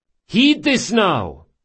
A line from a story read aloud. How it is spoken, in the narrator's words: shouted Drakasha